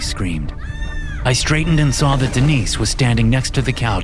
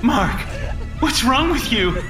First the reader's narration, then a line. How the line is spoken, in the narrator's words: She cried again